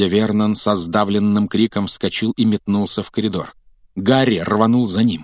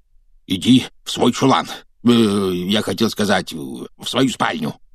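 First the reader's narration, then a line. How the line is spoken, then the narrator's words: Hoarse wheeze. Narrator (Russian): прохрипел он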